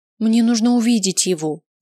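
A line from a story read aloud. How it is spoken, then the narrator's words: Pleading. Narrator (Russian): взмолилась я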